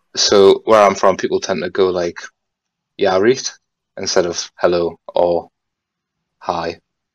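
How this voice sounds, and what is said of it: Geordie English accent. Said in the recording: “Geordie ... Yeah, Geordie ... my weird accent”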